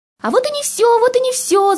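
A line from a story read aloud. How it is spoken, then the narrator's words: Shouting. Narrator (Russian): закричал Кирюша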